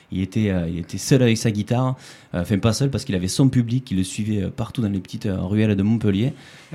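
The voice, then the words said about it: Southern French Aveyron accent. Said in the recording (French): “j'ai un accent qui ne sonne pas de Montpellier exactement. Je suis de Rodez, je suis Aveyronnais.”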